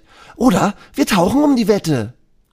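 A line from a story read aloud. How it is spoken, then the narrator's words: Shouting. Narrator (German): Elisa schreit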